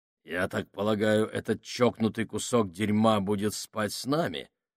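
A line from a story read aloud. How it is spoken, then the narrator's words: Plain. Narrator (Russian): спросил Сакс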